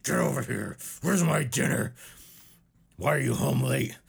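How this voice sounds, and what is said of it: Gruff tough-guy character voice. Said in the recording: “I'm not giving him a southern accent. I mean, he looks like the kind of guy that talks like this ... being like a real tough guy”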